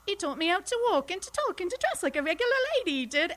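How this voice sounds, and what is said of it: Put-on Cockney accent. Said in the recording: “So I started out Cockney”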